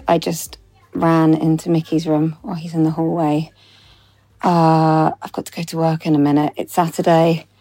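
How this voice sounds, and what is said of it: Out of breath, breathless speech. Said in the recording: “I'm a little bit out of breath.”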